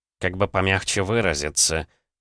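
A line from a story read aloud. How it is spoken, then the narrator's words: Muttering. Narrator (Russian): пробормотал Валерьян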